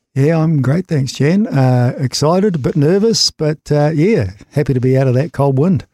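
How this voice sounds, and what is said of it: Smooth, resonant radio-style voice. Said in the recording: “he's got a radio voice.”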